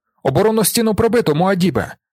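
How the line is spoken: Shouted. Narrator (Ukrainian): закричав

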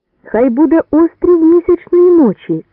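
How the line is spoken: Shout. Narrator (Ukrainian): крикнув Юнга

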